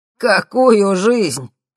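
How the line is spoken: Loud laughter. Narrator (Russian): расхохотался Ипполит Германович

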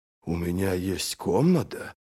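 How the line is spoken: Muttered. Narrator (Russian): пробормотал Брент

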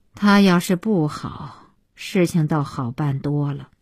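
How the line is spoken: Long sigh. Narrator (Chinese): 小西妈长叹

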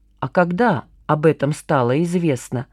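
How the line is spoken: Quiet inquiry. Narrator (Russian): осведомилась Маша тихонько

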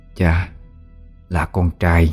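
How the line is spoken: Soft, gentle. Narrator (Vietnamese): khẽ khàng nói

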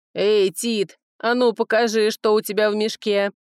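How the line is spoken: Deep bass voice. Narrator (Russian): пробасил Брега за моей спиной

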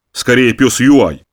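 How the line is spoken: Snorted. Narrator (Russian): фыркнул он

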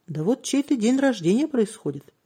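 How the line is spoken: Cheerful. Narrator (Russian): весело сказал мужчина

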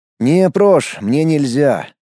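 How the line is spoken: Regretful sigh. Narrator (Russian): с сожалением вздохнул

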